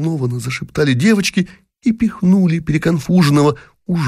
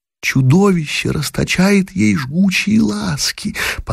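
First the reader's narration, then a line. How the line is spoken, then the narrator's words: Excited girls' whisper. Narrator (Russian): взволнованный шепот девочек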